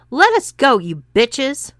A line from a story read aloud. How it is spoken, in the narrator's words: yelled Bob